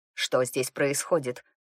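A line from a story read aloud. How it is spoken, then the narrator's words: Curt. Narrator (Russian): отрывисто бросил брюнет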